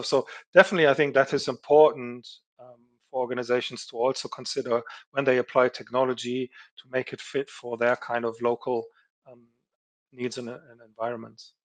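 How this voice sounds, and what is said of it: German accent. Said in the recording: “we are both German ... people could tell by the accent”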